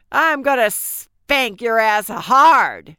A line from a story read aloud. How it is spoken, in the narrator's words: shouted